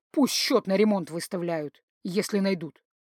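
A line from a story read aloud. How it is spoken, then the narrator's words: Knowing snort. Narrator (Russian): Линнелер, понимающе, хмыкнул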